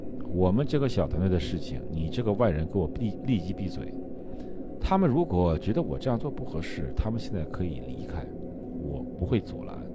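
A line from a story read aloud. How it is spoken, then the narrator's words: Cool, detached. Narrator (Chinese): 岳仲 淡淡的说道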